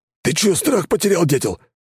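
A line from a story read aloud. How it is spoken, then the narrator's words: Hoarse rasp. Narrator (Russian): прохрипел он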